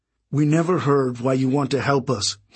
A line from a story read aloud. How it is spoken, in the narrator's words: he said